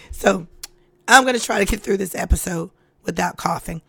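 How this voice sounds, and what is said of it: Weak, quiet voice after illness. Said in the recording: “my voice sounds different from the intro, but I've gotten over a cold... my voice has been gone. So I can't scream, I can't yell, I can't get loud. I have to talk in this tone or I have to talk lower”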